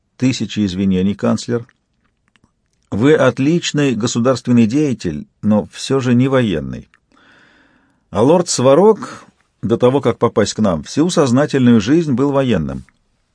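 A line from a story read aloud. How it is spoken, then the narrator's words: Calm, authoritative. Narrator (Russian): Яна также спокойно и непререкаемо сказала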